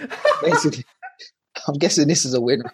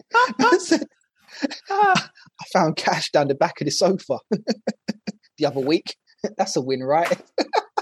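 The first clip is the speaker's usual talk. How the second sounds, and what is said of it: Imitation of Brimmer's accent. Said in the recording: “I'll read this in kind of like Brimmer's kind of accent that he used to bring to the podcast.”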